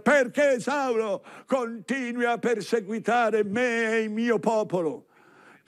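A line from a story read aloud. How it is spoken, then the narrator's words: Shouting from above. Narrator (Italian): Cristo di sopra grida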